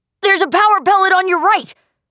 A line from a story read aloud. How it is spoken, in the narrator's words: He shouted